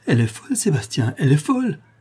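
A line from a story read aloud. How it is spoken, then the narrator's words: Exclaimed. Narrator (French): s'écria la tante Belle, lisant sur le visage de son mari les indices d'une terrible colère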